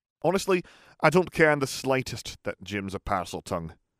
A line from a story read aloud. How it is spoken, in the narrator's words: said Oliver irritably